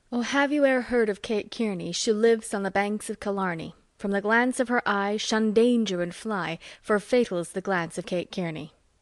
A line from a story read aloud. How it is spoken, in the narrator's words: he sighed and sung with a look at me